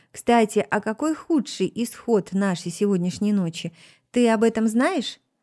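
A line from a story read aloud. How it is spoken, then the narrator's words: Laughing. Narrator (Russian): Он смеялся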